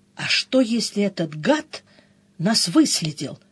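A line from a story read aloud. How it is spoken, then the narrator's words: Whispered. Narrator (Russian): прошептала Мышильда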